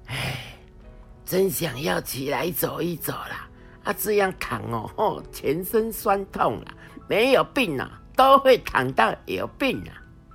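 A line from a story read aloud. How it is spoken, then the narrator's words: Sighing, weary. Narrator (Chinese): 阿妈躺在床上叹气的说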